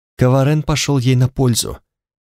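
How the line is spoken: Muttered. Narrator (Russian): пробормотала Танталь

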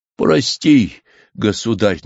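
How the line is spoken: Pleading. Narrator (Russian): наконец взмолился Меньшиков

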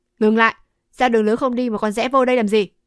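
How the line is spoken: Shout. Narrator (Vietnamese): Một tên quát

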